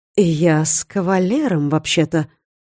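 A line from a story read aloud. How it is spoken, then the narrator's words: Surprised drawl. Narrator (Russian): протянула с удивлением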